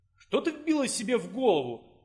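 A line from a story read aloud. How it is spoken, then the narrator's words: Emperor's exclamation. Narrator (Russian): воскликнул император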